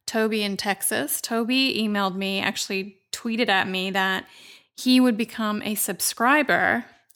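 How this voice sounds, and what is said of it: Dry voice with vocal fry. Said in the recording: “I have a bit of vocal fry. I get this at the end of the day. I sound a bit dry. ... Like I smoke cigarettes. ... I don't sound like this in the morning.”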